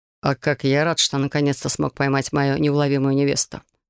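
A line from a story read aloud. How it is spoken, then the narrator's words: Amused snort. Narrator (Russian): хмыкнул Бастиан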